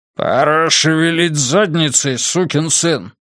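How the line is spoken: Growled. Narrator (Russian): прорычал Маркос

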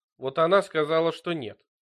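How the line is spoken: Grumbling. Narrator (Russian): проворчал он

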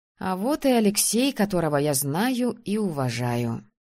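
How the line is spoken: Grumbling. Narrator (Russian): пробурчала я

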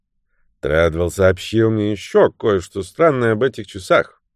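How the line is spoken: Genial, good-natured tone. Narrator (Russian): продолжил лорд Кейтерхэм уже вполне благодушным тоном

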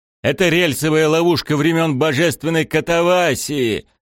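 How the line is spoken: Shouting. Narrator (Russian): крикнул Мбенда

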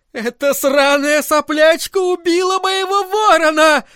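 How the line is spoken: Screaming. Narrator (Russian): орала она

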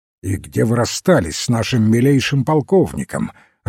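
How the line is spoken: Irritated question. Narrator (Russian): раздраженно спросил Фламбо

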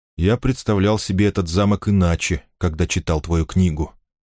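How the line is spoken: Quiet. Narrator (Russian): тихо сказал он Финолио

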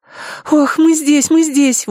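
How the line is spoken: Breathed out. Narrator (Russian): выдохнула Амена

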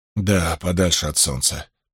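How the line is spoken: Muttering. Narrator (Russian): пробормотал Ранд

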